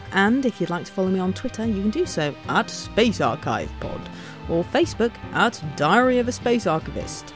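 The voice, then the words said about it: Funny put-on voice. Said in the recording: “Not sure why I'm doing a funny voice,”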